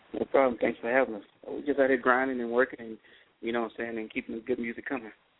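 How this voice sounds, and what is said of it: Slight Texas accent. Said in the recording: “You got a little accent, don't you? ... You got an accent. ... I guess that Texas accent coming out of me a little bit. ... Yeah, I hear it.”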